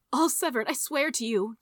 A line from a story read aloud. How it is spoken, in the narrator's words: pleaded